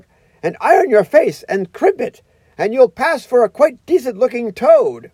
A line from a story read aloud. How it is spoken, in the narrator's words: called out